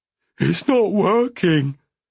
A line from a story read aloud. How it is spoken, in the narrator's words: he wailed